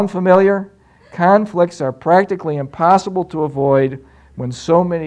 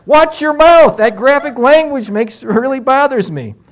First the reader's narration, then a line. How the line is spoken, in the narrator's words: his wife exclaims